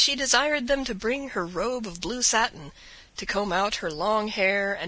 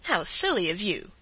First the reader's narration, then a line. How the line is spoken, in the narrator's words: sharply said the princess